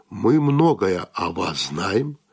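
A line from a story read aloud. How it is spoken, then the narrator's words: Even level voice. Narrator (Russian): тем же ровным голосом сказал Донати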